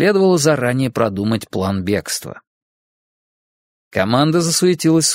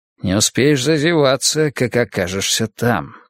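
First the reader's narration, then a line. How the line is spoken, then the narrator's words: Muttered. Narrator (Russian): пробормотал Фермин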